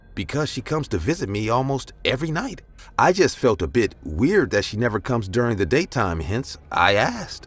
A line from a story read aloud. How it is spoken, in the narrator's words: I replied in a confused voice